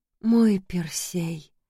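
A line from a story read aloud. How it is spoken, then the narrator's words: Madwoman's whisper. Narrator (Russian): безумная … прошептала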